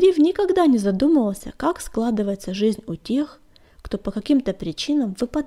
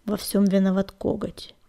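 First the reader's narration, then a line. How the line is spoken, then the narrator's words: Gloomy inner thought. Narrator (Russian): мрачно подумал Огнегриф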